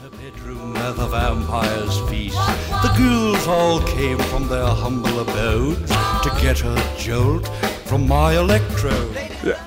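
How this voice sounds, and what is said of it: Sung Boris Karloff impression. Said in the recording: “Nobody in our band could do a real Boris Karloff impression ... this Boris Karloff impression throughout the song”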